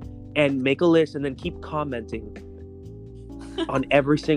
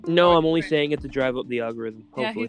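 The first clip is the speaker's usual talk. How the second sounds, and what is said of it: Sarcastic tone. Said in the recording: “he's being sarcastic”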